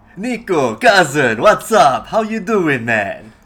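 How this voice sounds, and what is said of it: Bad put-on Russian accent, sounds Jersey. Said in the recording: “that's Jersey ... That was my most horrible Russian expression”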